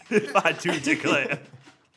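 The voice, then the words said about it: Put-on accent mimicking a local. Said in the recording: “I feel like your accent is more drifting towards mine.”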